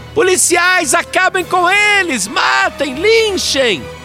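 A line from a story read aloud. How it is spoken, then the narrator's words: Frenzied screaming. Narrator (Portuguese): ela gritava mais do que torcedor fanático em dia de decisão de campeonato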